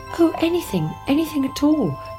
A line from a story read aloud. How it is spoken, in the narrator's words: cried the princess